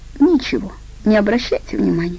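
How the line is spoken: Sobbing girl. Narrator (Russian): всхлипывала девушка

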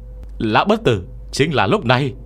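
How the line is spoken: Boy shouting. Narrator (Vietnamese): thằng nhóc hét lên

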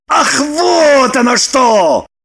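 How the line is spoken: Shouted. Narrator (Russian): закричал он

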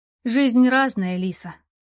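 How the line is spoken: Even, level. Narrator (Russian): ровным голосом сказала сестра

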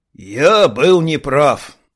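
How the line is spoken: Creaky strained dwarf. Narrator (Russian): проскрипел карлик, судорожно дергая кадыком

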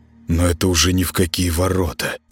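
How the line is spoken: Mumbled aloud. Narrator (Russian): промямлил он вслух

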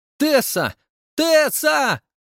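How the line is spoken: Kind girl shouting. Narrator (Russian): кричала добрая рыжая близняшка Лагуна

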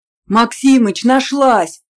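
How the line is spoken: Yelled. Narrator (Russian): заорал в ответ Смолянский

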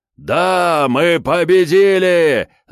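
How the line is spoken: Imp yelling triumphantly. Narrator (Russian): заорал бес

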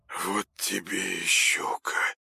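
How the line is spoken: Trembling dazed mutter. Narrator (Russian): пробормотал он прыгающими губами, едва ли сознавая, что говорит

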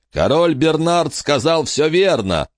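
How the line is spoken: Booming. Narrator (Russian): прогремел Робби Маклаур

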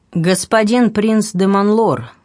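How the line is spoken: Firm, clear, carrying voice. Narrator (Russian): проговорил граф твердым, четким и внятным голосом, который расслышали даже те, кто находился в соседних помещениях

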